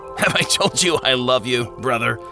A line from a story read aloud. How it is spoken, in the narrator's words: Watchful laughed